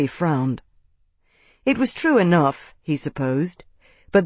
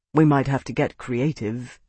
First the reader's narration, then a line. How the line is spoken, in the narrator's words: he said quietly